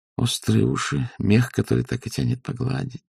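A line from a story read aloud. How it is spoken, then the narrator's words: Barely audible. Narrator (Russian): сказала она еле слышно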